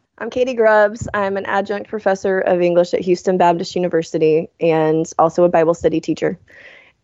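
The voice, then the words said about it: Sick, rough-sounding voice. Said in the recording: “I have got a cold from the said children, and my voice sounds terrible.”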